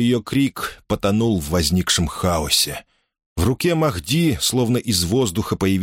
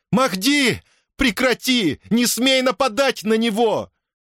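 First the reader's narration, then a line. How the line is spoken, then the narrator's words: Shout through shock and fear. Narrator (Russian): Преодолевая шок, боль и страх, Дайя крикнула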